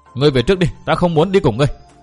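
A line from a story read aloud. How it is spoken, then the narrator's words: Still angry. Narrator (Vietnamese): A Loan dường như còn tức giận lắm, nàng nói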